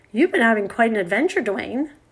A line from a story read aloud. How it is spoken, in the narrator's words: said Sun Girl